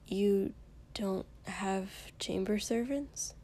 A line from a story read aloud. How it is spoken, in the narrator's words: He said softly